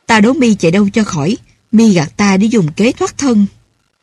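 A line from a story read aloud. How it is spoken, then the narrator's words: Angry cry. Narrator (Vietnamese): Phó Mạnh tức giận kêu và nói rằng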